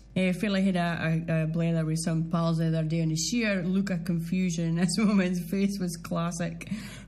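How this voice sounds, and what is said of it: Doric Scottish accent. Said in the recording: “a proud Doric accent”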